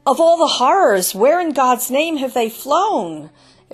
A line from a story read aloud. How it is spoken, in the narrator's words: exclaimed one